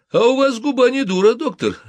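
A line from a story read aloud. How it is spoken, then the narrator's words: Laughing. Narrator (Russian): рассмеялся П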